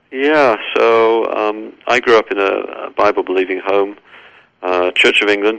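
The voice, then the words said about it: English accent. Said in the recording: “Obviously, you can tell from my accent that I'm from England originally.”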